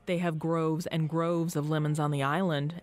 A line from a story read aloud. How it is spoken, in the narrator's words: Eddie hollered over the din of the dive bar